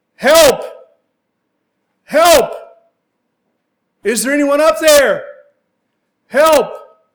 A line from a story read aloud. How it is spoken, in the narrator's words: he began to yell out